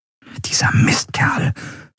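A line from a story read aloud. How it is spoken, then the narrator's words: Whisper. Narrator (German): flüsterte Andriel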